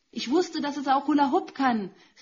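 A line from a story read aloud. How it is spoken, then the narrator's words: Man calling out. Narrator (German): rief mir der Mann im roten Pulli entgegen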